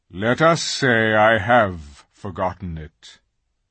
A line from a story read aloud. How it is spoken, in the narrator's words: answered Aslan gravely